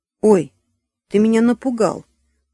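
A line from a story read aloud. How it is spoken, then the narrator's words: Exclaiming woman. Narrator (Russian): воскликнула она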